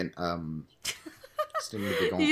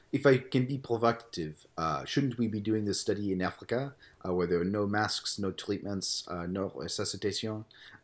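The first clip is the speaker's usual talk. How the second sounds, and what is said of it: Fake French accent. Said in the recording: “read it with a French accent.”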